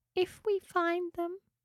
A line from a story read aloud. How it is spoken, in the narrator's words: she said sadly